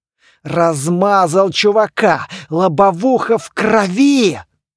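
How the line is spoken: Growling. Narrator (Russian): рычал Доплер

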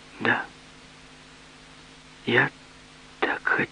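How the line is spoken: Quiet sad repetition. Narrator (Russian): повторила снова тихо и печально

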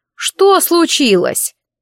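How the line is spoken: Coachman shouting. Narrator (Russian): голос возницы прокричал

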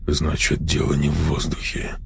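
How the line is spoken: Quiet conclusion. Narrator (Russian): тихо заключил

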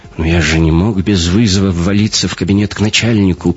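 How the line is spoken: Mumbled. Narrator (Russian): промямлил шифровальщик

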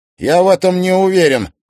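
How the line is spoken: Snapping retort. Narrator (Russian): огрызнулся Тимофей

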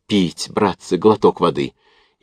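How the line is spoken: Parched wheeze. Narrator (Russian): кусая сухие, обметанные копотью губы, просипел

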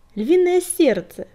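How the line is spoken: Exclaiming. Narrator (Russian): воскликнул Клубок

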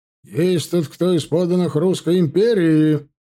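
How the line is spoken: Shouting out. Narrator (Russian): выкрикнул полковник

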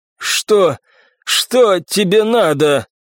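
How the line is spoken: Hoarse question. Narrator (Russian): Мужчина хриплым голосом спросил

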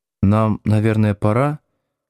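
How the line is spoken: Soft, guilty suggestion. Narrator (Russian): мягко и виновато предположила Маша

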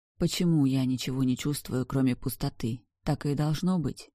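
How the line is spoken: Quiet question. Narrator (Russian): Тихо задала я вопрос

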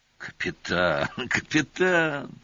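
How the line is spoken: Sighing. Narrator (Russian): Вздохнул Олис

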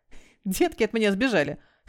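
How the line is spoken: Chuckling. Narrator (Russian): хохотнул Милз

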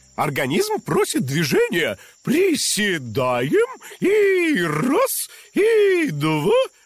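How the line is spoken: Brisk, cheerful counting. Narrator (Russian): бодро считала она

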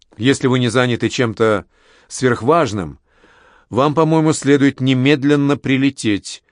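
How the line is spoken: Plain. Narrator (Russian): сказал Оклер

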